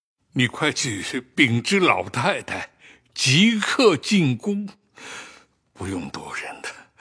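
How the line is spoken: Tearful, breathless. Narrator (Chinese): 贾政 满脸泪痕，喘吁吁的说道

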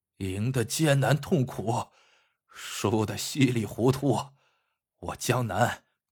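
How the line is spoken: Rueful, heavy sigh. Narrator (Chinese): 江南先生仰天长叹道

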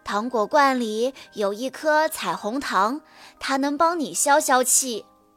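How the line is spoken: Sighing. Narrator (Chinese): 象妈妈叹了口气说

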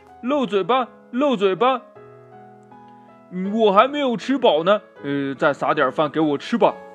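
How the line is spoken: Calling out. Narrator (Chinese): 对小弟弟叫着

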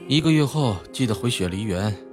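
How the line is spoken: Calm, indifferent. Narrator (Chinese): 齐然面色沉静地淡淡道

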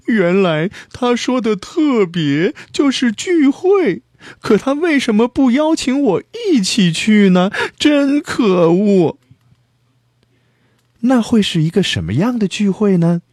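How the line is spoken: Crying. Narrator (Chinese): 野兔去参加聚会了，他哭道

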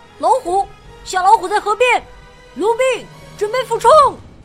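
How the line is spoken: Crying out. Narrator (Chinese): 他叫了出来

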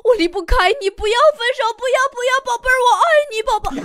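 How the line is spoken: Shouting. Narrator (Chinese): 男人喊

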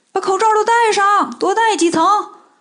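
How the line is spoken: Urgent shout. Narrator (Chinese): 孙悟空赶紧对身后的猴子们喊

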